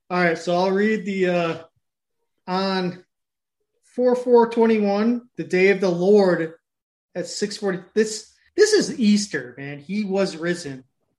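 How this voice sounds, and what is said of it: Slow put-on Scottish accent. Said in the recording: “Scottish accent ... I guess this is going to be a Scottish accent. We'll go slow.”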